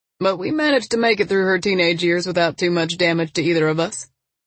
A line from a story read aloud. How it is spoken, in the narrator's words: he chuckled